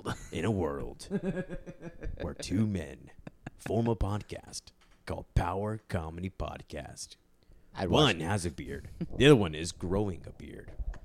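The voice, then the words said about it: Deep movie-trailer narrator voice. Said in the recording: “My deep voice.”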